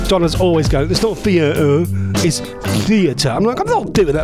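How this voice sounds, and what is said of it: Strong Norfolk accent. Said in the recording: “I have got a very strong Norfolk accent, and I'm very proud of my strong accent”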